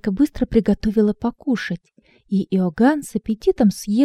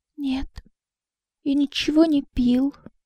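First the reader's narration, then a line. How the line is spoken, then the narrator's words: Barely audible whisper. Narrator (Russian): едва слышно прошептал Иоганн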